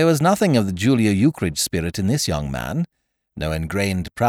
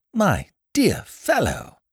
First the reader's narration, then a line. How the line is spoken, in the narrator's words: he exclaimed exuberantly